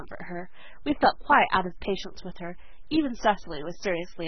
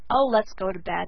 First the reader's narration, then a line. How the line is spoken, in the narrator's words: growled Stan